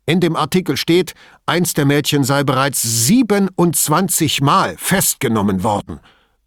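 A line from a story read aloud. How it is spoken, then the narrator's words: Angry blustering. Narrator (German): polterte Patta und ließ seinem Zorn jetzt freien Lauf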